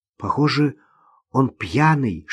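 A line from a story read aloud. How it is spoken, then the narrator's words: Whisper. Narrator (Russian): шепнула Ирина Наташе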